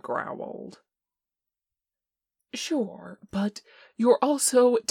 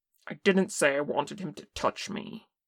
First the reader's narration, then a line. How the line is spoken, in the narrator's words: Kim snapped